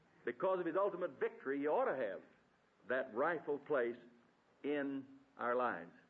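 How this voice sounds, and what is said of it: Preacher with a noticeable accent. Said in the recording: “My accent's not bothering you, is it? Huh? I could get an interpreter if I need one”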